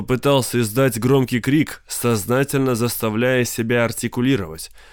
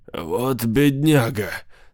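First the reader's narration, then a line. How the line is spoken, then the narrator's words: High strained voice. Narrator (Russian): сказал человек высоким сдавленным голосом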